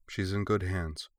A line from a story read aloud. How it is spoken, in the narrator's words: Korra said quietly